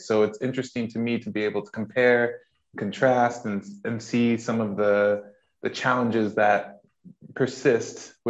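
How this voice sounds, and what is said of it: American accent. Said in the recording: “as you can tell from my accent, I am from the States”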